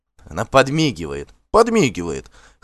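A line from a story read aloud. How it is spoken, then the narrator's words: Guffawing crowd. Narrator (Russian): хохотали гости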